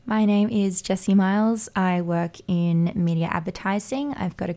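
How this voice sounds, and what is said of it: Raspy, hoarse voice with vocal fry. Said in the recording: “If I sound a little vocal fry, I'm not trying to be cool. My voice is just there. ... She's just a raspy girl.”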